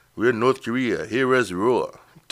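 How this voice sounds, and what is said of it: Bad Asian accent impression. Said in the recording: “bad Asian impression”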